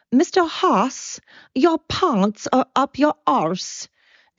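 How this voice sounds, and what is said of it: Poor imitation of South African accent. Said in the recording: “I cannot do a South African accent. So I'm going to absolutely slaughter the accent”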